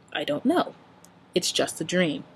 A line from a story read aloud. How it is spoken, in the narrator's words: Sam told it calmly